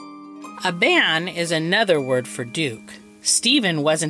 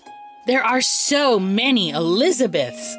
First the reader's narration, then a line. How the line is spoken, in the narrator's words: Aristea cried